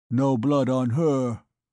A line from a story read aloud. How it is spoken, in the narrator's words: he said in a dull voice